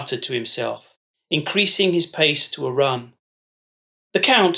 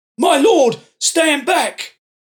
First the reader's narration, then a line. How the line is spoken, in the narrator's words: Brux barked